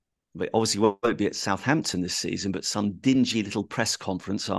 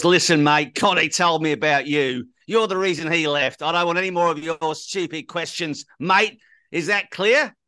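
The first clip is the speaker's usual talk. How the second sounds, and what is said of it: Australian accent impression of Ange. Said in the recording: “The Australian accent is good, actually. It's better than the Argentinian one, I think.”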